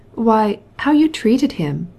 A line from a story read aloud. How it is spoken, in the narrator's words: exclaimed Oblonsky